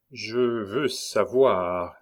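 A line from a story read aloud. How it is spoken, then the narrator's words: Slow. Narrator (French): dit lentement Jean-Baptiste Schwartz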